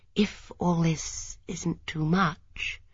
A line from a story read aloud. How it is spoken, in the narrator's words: she murmured